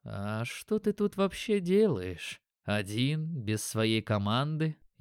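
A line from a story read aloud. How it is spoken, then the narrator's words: Sighing. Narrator (Russian): Я вздохнул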